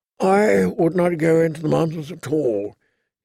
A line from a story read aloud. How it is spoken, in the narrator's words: said in a thin, tired voice